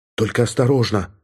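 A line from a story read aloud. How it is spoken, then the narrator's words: Quick whisper. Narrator (Russian): быстро прошептала она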